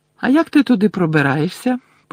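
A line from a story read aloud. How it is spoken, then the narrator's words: Innocent tone. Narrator (Ukrainian): поцікавилася Герміона безневинним тоном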